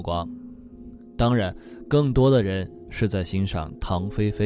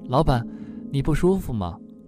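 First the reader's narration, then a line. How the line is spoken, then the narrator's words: Breathless. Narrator (Chinese): 苏阳使劲地喘了口气，说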